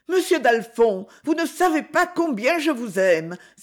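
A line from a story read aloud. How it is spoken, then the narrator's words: Exclamation. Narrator (French): s'écria Claire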